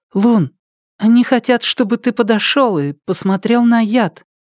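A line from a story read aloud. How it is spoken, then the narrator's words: Timid. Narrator (Russian): Она робко сказала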